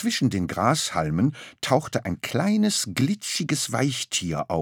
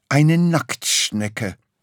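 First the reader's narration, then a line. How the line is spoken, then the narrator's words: Plain animal voice. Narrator (German): sagte das Tier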